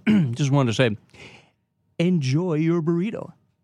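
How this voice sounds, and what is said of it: Imitates a radio DJ's voice. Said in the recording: “Rick D's impersonation”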